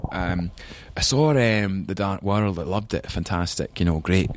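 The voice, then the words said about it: Imitated Scottish accent. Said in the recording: “my dad, you know, still speaks with a Scottish accent.”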